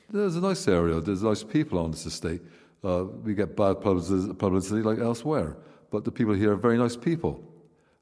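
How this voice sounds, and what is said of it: Bristolian English accent. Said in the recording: “the accent, the Bristolian accent ... I am a Bristolian”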